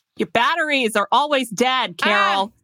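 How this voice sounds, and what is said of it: Shouting. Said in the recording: “You're shouting. ... Calm down.”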